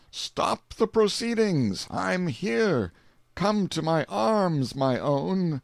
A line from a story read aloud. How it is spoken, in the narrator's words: He exclaimed